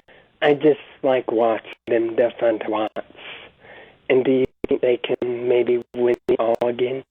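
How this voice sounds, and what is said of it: Slight New York accent. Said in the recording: “I thought I heard a little bit of a New York accent.”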